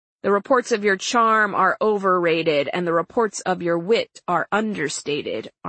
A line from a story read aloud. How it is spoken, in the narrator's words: Armey replied